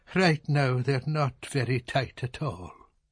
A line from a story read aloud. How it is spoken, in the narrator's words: the captain said sadly